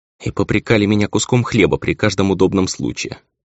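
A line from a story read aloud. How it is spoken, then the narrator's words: Weary. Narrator (Russian): устало сказала баронесса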